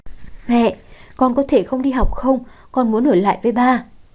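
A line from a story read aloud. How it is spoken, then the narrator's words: Little girl, quiet voice. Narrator (Vietnamese): cô bé nhỏ giọng nói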